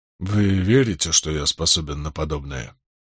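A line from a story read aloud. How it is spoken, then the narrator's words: Barely audible. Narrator (Russian): произнес он едва слышно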